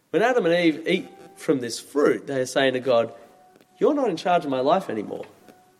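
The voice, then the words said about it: Australian accent. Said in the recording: “As you maybe have noticed from my accent, I'm from Australia.”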